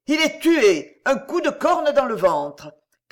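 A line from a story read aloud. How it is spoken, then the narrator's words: Crowd shouting. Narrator (French): criait-on sur les gradins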